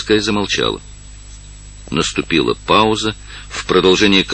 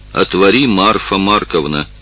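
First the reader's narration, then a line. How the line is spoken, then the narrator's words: Commanding tone. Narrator (Russian): сказал повелительным тоном офицер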